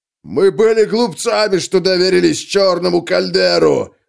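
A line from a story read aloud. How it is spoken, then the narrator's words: Shouted. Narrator (Russian): закричал Йорд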